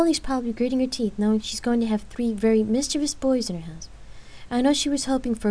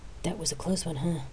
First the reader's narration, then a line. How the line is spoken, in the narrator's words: Rain whispered in Lark's ear